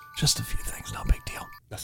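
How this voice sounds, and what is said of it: Whispering voice. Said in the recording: “I'm back to whispering... We're in a whispering mood today.”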